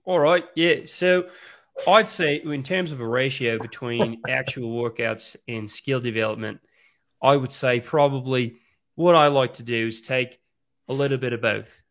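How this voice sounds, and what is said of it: Fairly authentic put-on Australian accent. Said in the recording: “You have to answer this in an Australian accent ... That was pretty good ... I was pleasantly surprised. You're pretty authentic Australian”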